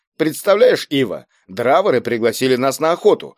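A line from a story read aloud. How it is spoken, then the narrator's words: Indignant. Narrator (Russian): возмущенно начал рассказывать Баслов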